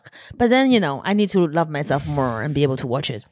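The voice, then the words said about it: Thick Chinese accent. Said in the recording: “my accent ... a Chinese person with a better accent ... a less thick accent”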